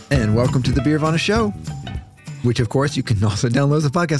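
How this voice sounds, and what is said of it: Exaggerated radio announcer voice. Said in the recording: “your terrible radio voice”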